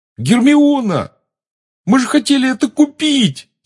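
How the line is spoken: Yelling. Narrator (Russian): завопил Рон

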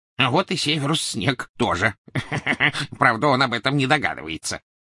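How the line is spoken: Reply, then gloating laughter. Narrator (Russian): ответил Крюкохват, и оба гоблина злорадно расхохотались

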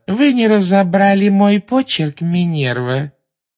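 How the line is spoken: Unctuous sugary question. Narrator (Russian): спросила Амбридж елейным тоном, позабыв кашлянуть

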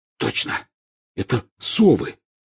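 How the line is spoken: Hoarse. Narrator (Russian): хрипло сказал Рон

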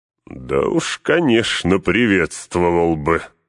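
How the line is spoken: Loud laughter. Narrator (Russian): расхохотался Гэндальф

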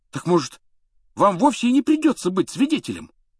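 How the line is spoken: Ardent exclamation. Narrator (Russian): с жаром воскликнул Рон

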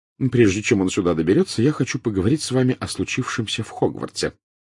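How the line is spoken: Quick speech. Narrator (Russian): быстро сказала она

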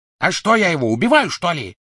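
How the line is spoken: Barking. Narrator (Russian): рявкнул Крэб

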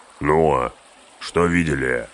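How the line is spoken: Growling. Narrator (Russian): рыкнул Углук

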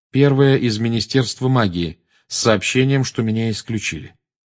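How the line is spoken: Calm. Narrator (Russian): спокойно ответил Гарри

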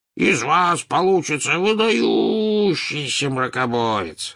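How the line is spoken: Booming hum. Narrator (Russian): прогудел Слизнард

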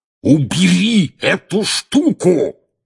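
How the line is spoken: Roaring right in ear. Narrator (Russian): проревел дядя Вернон прямо в ухо Гарри

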